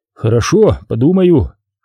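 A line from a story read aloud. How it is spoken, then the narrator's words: Grumbled. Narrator (Russian): Виктор буркнув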